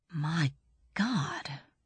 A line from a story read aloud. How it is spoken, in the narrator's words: breathed Braun Lamia